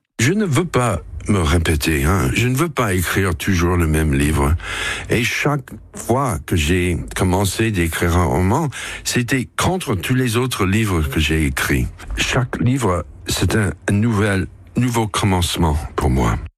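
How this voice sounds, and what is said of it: Perfect French, slight American accent. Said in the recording (French): “au français parfait, avec ce petit accent qu'on adore ... fondamentalement new-yorkais”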